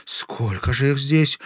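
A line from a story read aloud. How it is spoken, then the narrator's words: Breathed out. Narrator (Russian): выдохнула Оксана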